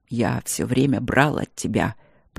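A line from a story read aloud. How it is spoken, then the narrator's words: Quiet. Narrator (Russian): проговорил он также негромко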